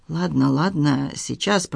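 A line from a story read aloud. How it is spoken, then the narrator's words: Mumbled. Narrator (Russian): пробормотал Хуан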